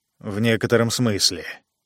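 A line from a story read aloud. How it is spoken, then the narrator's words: Mutter. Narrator (Russian): пробормотал Джо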